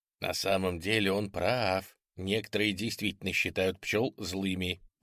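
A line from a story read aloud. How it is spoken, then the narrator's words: Whisper. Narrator (Russian): прошептал я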